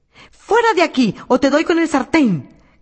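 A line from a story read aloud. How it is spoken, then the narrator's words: Woman shouting. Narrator (Spanish): gritó la pobre mujer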